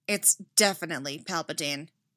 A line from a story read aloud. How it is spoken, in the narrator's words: Anakin said grimly